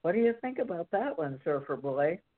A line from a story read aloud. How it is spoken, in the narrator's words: asked as he laughed, and I thought he would wake up the whole neighborhood